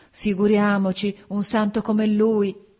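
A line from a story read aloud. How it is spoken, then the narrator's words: Women exclaiming. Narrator (Italian): Le donne esclamarono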